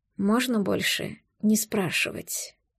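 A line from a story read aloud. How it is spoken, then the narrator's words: Whisper. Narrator (Russian): шепнул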